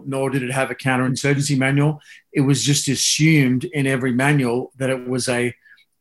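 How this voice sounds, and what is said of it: Australian accent. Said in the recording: “as you can probably tell from the accent, I came up in the Australian system”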